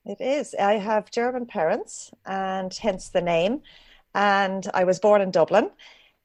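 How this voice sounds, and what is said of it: Irish country accent. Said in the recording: “I'm a bit of a sucker for the Irish accent ... we call a culchy accent, which is a country accent in Ireland”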